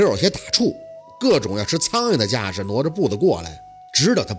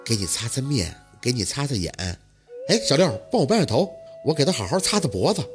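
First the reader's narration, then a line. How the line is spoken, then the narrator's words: Earnest raised-voice mumbling. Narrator (Chinese): 宝四一本正经的，嘴里提着声音念叨着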